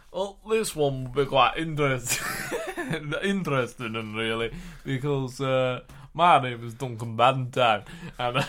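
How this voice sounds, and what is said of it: Put-on Yorkshire accent. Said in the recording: “Duncan Ballantyne is Scottish. You're doing a Yorkshire accent. ... Apologies for the accent.”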